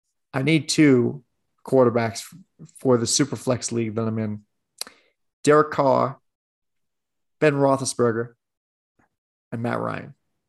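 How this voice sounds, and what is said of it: Poor Southern accent, dropped midway. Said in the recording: “I gave up on doing a Southern accent about halfway through that. ... it was pretty terrible ... That was borderline disgraceful.”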